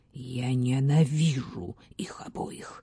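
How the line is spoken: Hissing. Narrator (Russian): прошипела сеньора

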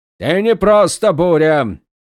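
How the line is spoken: Roar turning to thunder. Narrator (Russian): взревел Долинар, и его голос сменился раскатами грома

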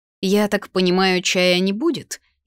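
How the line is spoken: Sarcastic question. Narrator (Russian): язвительно поинтересовалась

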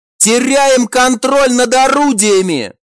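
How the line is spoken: Howling cry. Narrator (Russian): взвыл третий

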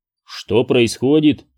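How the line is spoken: Plain. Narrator (Russian): спросил

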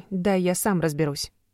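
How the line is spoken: Calm question. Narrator (Russian): спокойно спросил Тристан

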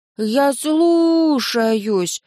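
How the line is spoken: Drawn-out drawl. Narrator (Russian): протянула наследница

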